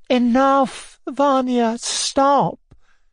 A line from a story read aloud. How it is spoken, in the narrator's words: interrupted, smiling through her tears